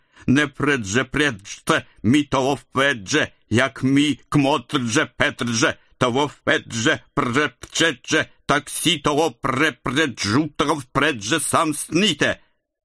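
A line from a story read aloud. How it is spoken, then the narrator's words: Menacing drunken singing. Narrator (Russian): Грозно распевал челоковицкий вампир, пьяный в русскую зюзю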